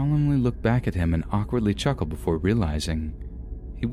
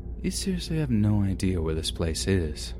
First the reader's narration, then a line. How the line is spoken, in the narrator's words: quietly uttering out